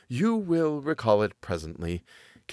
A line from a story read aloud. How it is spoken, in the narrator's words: continued the other in a gentle voice and smiling a little